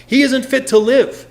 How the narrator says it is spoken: they yelled

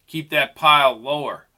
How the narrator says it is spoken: he shouted

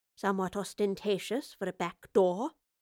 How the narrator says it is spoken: the professor muttered to herself

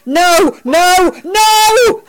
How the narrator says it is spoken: Al shouted again

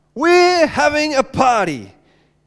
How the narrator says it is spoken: he shouted

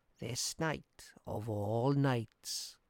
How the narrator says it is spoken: said the old woman softly

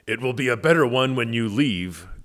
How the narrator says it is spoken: growled the boar

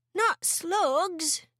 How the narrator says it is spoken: George cried out

